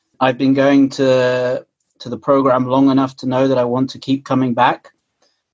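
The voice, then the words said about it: British English accent. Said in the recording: “as you can probably tell from my accent, I'm originally from the UK”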